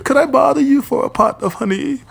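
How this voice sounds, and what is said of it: Cartoon bear character voice. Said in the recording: “impersonation of Winnie. That's like my best impersonation”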